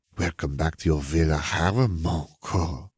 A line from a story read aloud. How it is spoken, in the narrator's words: Gabby purred